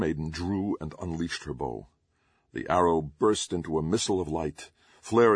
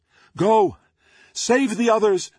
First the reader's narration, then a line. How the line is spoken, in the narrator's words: Doom Maiden shouted